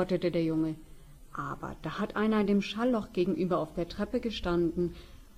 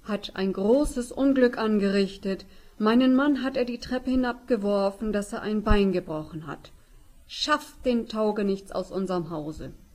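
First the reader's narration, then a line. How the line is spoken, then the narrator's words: Calling out. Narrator (German): rief sie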